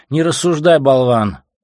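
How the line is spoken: Shouted. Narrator (Russian): крикнул он

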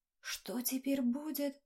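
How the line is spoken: Whisper from crowd. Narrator (Russian): прошептал кто-то в толпе

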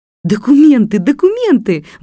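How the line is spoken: Exclaiming woman. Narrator (Russian): воскликнула леди Элен

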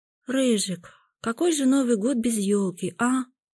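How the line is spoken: Sad girl's question, sigh. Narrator (Russian): спросила девочка и грустно вздохнула

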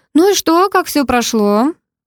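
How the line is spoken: Cheerful driver. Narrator (Russian): весело спросил таксист

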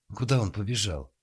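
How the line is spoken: Frightened question. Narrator (Russian): испуганно спросила Надежда

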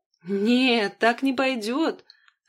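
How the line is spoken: Laughing. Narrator (Russian): рассмеялся брат

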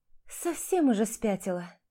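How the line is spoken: Resigned sigh. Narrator (Russian): Обреченно вздохнула Ира

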